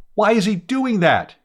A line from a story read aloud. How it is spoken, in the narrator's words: he shouted